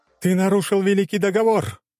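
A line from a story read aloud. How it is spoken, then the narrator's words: Quiet yet carrying outcry. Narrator (Russian): выкрикнула Василиса, и пусть ее голос был тих, но слышали его все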